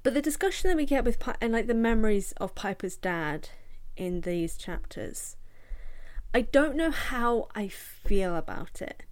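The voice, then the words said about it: British English accent. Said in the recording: “I'm British, as you can tell from this accent”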